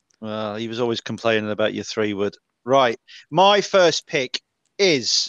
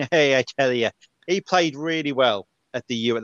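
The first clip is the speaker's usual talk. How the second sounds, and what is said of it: Put-on Irish accent, sounds Northern Irish. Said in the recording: “That was Irish accent ... that was Northern Irish more than it was Southern Irish”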